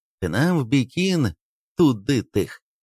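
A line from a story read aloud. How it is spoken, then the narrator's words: Loud speech. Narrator (Russian): шофер громко сказал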